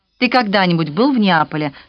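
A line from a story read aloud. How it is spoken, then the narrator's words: Plain. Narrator (Russian): спросила Пьетра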